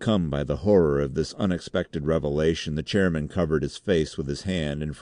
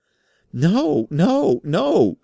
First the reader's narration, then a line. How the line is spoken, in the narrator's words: shrieked Raikes, still upon his knees and cowering like a beaten hound